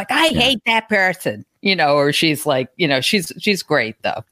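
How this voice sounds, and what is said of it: Put-on New York accent. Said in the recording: “You even did the New York accent that I know from film.”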